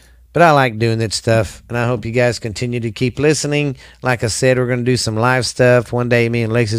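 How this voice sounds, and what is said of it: Usual voice. Nothing is said of it.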